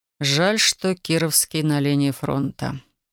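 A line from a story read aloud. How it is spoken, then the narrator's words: Soft remark. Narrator (Russian): мягко заметил Александр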